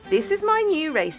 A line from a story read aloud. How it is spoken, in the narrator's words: he exclaimed